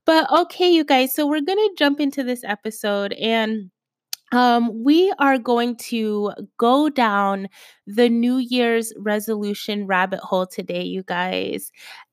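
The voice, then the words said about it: Slightly raspy voice. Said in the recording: “my voice sounds a little bit raspy, but I think I'm coming down with something.”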